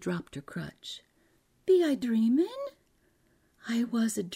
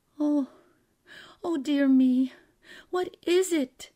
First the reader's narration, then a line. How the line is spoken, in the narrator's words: faltered